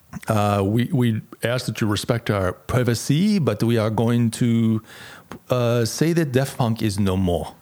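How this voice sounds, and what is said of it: Bad put-on French accent. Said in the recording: “That's my really bad French accent.”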